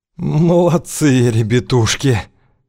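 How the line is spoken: Wheezing. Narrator (Russian): просипел Кузьма

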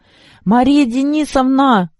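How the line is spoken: Shouting. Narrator (Russian): кричала

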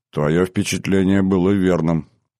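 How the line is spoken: Calm. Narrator (Russian): спокойно ответил Рехавам

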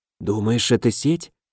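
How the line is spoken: Whisper. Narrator (Russian): прошептал я

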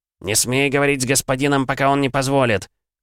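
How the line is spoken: Warrior's harsh bark. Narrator (Russian): гаркнул один из сопровождающих воинов

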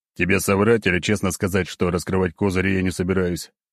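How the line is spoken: Snort. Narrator (Russian): хмыкнул

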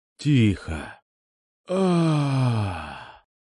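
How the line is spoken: Sluggish drawl, man on gurney. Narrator (Russian): Заторможенно протянул мужик на каталке

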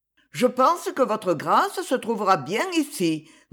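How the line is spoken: Satisfied housekeeper. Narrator (French): dit la femme de charge d'un ton satisfait

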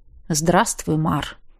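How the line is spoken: Calm, familiar voice. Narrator (Russian): спокойно произнес до боли знакомым голосом

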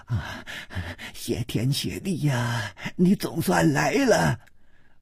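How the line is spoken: Breathless, panting. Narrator (Chinese): 喘息着说

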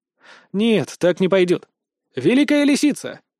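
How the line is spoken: Exclaimed. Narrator (Russian): воскликнул

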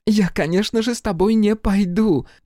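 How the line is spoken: Laughing interruption. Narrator (Russian): Смеясь, прервала меня Хелена

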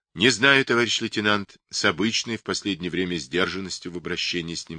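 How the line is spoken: Plain. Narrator (Russian): сказал капитан

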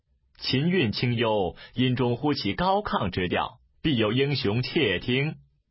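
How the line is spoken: Laughing. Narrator (Chinese): 一人笑而出曰

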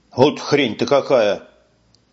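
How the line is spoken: Grumbling. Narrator (Russian): бурчал

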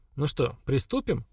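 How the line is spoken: Cheerful question. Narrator (Russian): бодро спросила Хагра

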